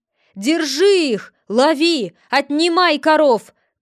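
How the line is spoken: Frantic shouting. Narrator (Russian): кричал вне себя грызун

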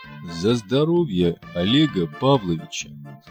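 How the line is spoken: Plain. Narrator (Russian): сказал Кондрат Ефимович

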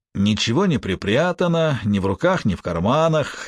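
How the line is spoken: Sarcastic. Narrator (Russian): язвительно заключил Тюлип

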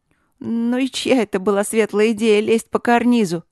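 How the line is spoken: Little dragon snorting. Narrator (Russian): фыркнул дракончик

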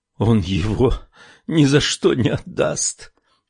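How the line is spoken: Sighing. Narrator (Russian): вздохнула она

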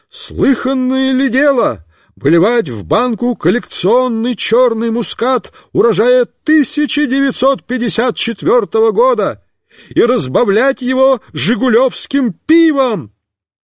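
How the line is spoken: Shouting. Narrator (Russian): Он кричал

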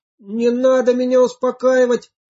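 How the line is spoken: Shout. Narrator (Russian): закричал Гоша

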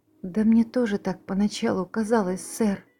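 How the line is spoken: Frightened answer. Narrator (Russian): испуганно ответила Нэнси

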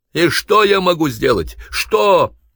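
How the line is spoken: Boss shouting after someone. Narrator (Russian): Вдогонку Антону крикнул начальник

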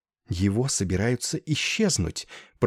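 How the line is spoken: Whisper. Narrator (Russian): прошептала мисс Дакет

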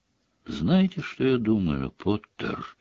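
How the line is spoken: Very quiet. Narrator (Russian): совсем тихо произнес Снег

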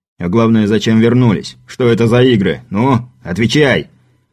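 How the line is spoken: Deafening bark. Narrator (Russian): Пушкарёв рявкнул так, что у скаута заложило уши

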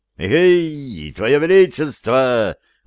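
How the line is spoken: Joyful booming. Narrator (Russian): радостно прогудел он

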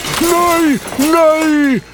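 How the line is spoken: Shout. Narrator (Norwegian): ropte Fobutrond

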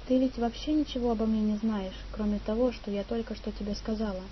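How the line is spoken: Quiet, embarrassed. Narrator (Russian): Порозовев от смущения, ангелочек тихо сказала

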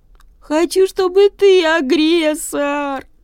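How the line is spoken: Sobbing little bird. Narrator (Russian): рыдает пичуга

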